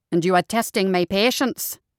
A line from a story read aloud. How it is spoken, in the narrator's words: Seamus snapped